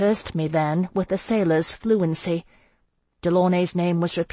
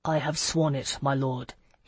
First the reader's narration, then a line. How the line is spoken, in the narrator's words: he said softly